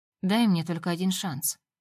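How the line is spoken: Calm. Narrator (Russian): спокойно говорит он

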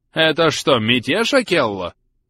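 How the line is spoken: Yelling into the air. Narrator (Russian): Вопит в воздух

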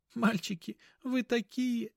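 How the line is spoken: Trembling, tearful voice. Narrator (Russian): подрагивающим голосом произнесла Мила, вытирая слезы

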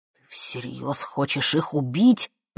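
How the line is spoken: Hissing. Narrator (Russian): прошипел Костя

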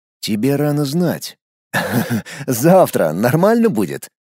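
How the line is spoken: Laughing. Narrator (Russian): засмеялся я

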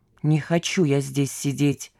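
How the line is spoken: Quiet but distinct. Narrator (Russian): тихо, но отчетливо выговорил предполагаемый бывший сотрудник секретного ведомства

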